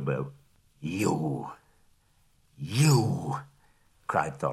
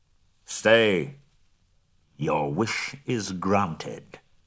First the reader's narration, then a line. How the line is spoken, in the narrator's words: said a voice